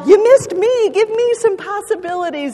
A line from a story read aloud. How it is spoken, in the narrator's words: another kid hollered